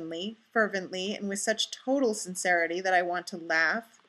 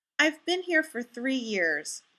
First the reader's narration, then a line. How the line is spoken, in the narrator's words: Fraser explains earnestly